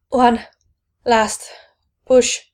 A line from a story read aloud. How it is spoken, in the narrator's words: Kip gasped